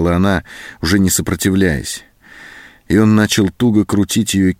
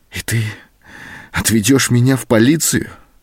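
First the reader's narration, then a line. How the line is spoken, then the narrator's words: Trembling question. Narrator (Russian): спросила она дрогнувшим голосом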